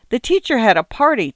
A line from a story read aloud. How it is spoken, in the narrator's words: chirped Susan Ellen, the elder of the two children